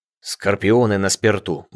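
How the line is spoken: Grumble. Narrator (Russian): буркнул Чатраги

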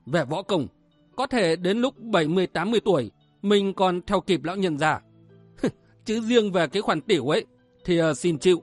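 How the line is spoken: Muttering. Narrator (Vietnamese): Lực Bạt Cửu Nhạc Du Đại Nguyên lẩm bẩm

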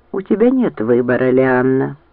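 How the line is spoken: Grim smiling tone. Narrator (Russian): мрачно улыбнулся Лазарь

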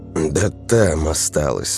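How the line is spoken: Sighing. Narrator (Russian): Максимов вздохнул

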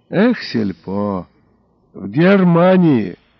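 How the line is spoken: Forced out with strain. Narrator (Russian): монтер выдавил из себя с жуткой натугой

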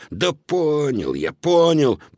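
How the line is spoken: Grumbling. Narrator (Russian): проворчал Додо

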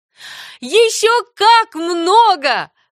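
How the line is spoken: Unrestrained exclamation. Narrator (Russian): воскликнула Энни, забывая об этикете

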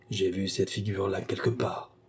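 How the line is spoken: Quiet speech. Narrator (French): dit tout bas

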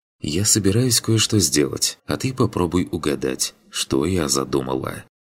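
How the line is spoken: Female whisper. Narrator (Russian): шепнула она

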